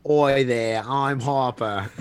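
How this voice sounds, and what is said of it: Australian-accented character voice. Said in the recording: “his Harper JFK Australian voice ... It sounds like JFK ... Yes, JFK.”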